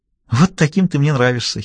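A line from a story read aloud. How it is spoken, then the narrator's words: Giggling. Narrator (Russian): хихикнула Аннабелл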